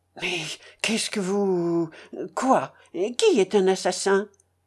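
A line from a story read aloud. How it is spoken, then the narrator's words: Stammering, barely intelligible. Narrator (French): balbutia Raskolnikov d'une voix presque inintelligible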